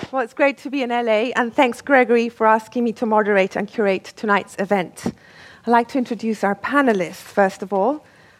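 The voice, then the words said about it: English-Mexican accent. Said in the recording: “an incredibly cool sort of English-Mexican accent”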